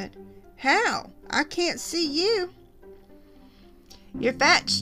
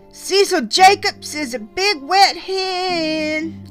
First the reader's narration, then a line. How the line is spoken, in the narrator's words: I yelled suddenly